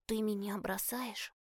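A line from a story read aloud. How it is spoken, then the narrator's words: Quiet serious question. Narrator (Russian): тихо спросил Альфи, серьезно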